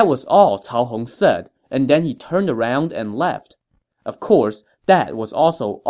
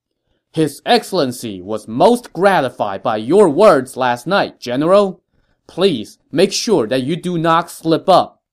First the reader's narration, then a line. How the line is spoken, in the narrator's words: he had to raise his voice to be heard, Cao Hong said, loud enough for everyone to hear